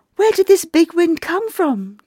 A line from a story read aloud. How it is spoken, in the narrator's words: Jenny cried out in amazement